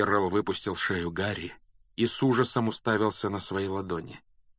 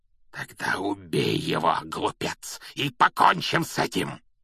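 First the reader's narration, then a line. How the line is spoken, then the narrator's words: Hoarse shout. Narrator (Russian): хрипло выкрикнул Волан-де-Морт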